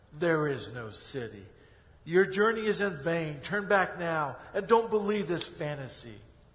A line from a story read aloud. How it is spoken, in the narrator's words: With anger in his voice, he yelled